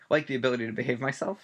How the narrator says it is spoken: said Tonks

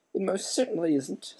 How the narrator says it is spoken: said the pale witch, indignantly

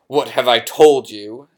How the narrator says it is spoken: thundered his uncle, spraying spit

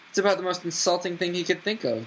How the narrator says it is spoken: gasped Ron

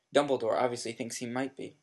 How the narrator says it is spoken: said Ron

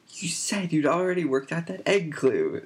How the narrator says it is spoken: said Hermione indignantly

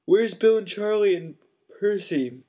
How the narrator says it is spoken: said George, failing to stifle a huge yawn

